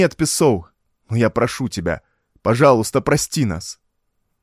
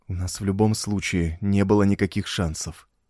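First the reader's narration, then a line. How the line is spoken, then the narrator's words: Low whisper. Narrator (Russian): прошептал Таддео на таком уровне громкости, чтобы было слышно только своим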